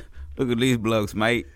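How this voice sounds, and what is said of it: Attempted English or Australian accent. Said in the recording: “I don't know if that's a good English accent. ... I think that's Australian. Sure Australian.”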